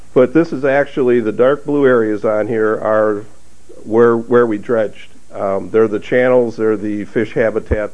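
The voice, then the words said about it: Strained voice from a cold. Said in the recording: “I was ill, so my voice is, if I lose my voice, I really have to apologize. I'm having a hard time struggling with this cold.”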